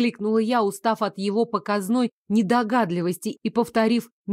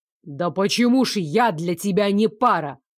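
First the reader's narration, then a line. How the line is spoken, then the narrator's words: Angry barking. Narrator (Russian): в свою очередь рявкнул Лоренс, от злости даже забыв про официальный тон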